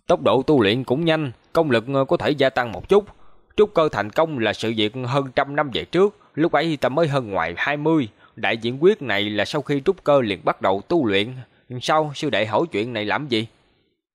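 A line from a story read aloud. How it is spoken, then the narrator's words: Sudden cold question. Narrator (Vietnamese): Hàng Lập đột nhiên lạnh lùng hỏi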